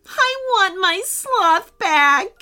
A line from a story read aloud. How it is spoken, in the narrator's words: wailed